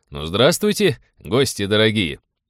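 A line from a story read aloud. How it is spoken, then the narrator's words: Cheerful booming voice. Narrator (Russian): весело прогудел казак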